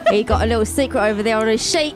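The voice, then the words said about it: Put-on Cockney accent. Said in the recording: “we're all doing a Cockney accent now”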